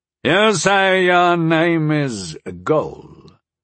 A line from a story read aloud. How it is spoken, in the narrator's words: the voice of one of the men finally rumbled, startlingly loud in the stillness